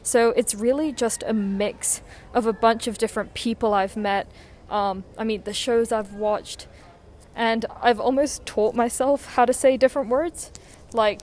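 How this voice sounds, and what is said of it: Somewhat Americanized English accent. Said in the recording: “we have quite different accents. So I think that mine's a little bit more Americanized ... my actual voice sounds very American, but I use more English words”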